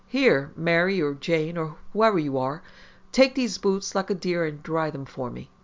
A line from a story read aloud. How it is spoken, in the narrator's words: Maisie called out casually